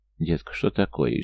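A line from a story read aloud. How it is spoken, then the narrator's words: Frightened female friend speaking. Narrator (Russian): испуганно заговорила подруга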